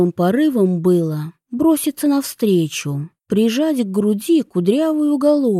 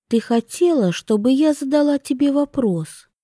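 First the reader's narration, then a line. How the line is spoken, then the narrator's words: Soft voice. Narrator (Russian): Мягко произнесла Вивьен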